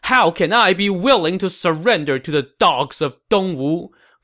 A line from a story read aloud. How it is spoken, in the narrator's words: Fu Tong said angrily